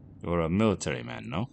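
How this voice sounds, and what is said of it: Unplaceable foreign accent. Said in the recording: “in an accent Jack could not place”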